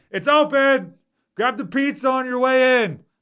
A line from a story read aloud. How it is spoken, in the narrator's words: just yelling